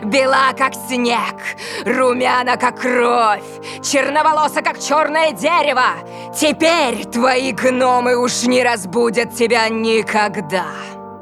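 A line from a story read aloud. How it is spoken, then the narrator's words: Loud cackling, wicked. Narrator (Russian): королева и, громко захохотав, сказала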